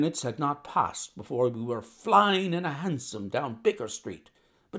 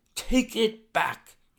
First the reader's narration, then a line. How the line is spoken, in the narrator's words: cried